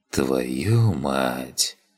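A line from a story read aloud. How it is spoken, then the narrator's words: Whisper. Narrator (Russian): прошептал я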